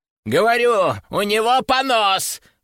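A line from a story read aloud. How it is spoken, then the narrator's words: Yelling customer. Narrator (Russian): орал очередной клиент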